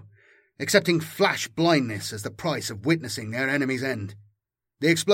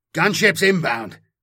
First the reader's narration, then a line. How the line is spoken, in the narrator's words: The sword brother grunts as he pulls his lord to safety